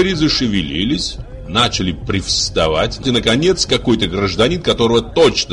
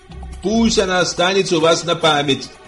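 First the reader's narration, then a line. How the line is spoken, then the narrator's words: Shouted. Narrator (Russian): прокричал Фагот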